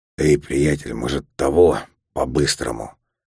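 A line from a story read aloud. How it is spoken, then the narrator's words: Hoarse voice close to ear. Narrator (Russian): прямо мне в ухо коп говорит своим хриплым голосом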